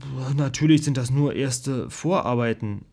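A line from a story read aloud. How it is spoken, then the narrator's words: Stammering. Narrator (German): stammelte ich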